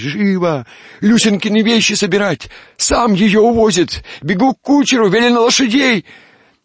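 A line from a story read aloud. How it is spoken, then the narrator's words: Agitated shout. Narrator (Russian): горничная ... крикнула нянюшке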